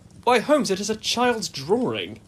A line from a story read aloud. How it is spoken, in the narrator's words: I cried